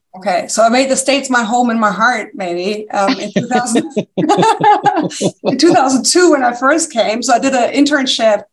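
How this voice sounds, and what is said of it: Slight German accent. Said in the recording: “there's a slight accent. It's German.”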